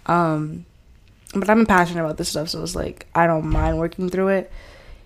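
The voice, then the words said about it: Choked-up, congested voice. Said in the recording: “I'm a little choked up a little bit because I'm getting over this cold”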